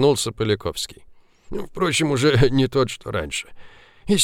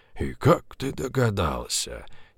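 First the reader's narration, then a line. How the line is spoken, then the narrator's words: Quiet laugh. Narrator (Russian): Тихо засмеялся Поляковский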